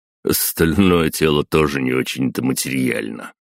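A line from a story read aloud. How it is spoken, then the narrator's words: Irritated snort. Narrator (Russian): фыркнул Световид, раздраженный глупым вопросом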